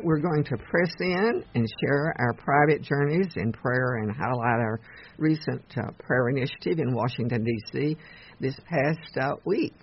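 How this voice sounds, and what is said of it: Voice sounds bad, strained. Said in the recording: “My voice is so bad”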